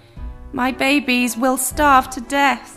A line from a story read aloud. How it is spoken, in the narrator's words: Squirrel cried sadly